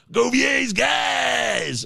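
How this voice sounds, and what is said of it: Booming wrestler-style announcer voice. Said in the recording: “makes me sound like a I don't know, a wrestler or something like that”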